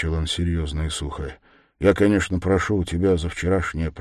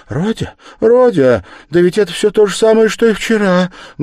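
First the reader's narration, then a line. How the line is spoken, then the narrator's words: Sorrowful exclamation. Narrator (Russian): горестно воскликнула Пульхерия Александровна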